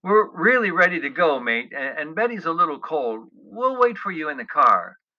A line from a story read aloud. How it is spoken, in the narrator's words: I said again, hoping I sounded soothing